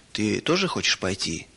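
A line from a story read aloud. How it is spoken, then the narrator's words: Plain question. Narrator (Russian): спросил папа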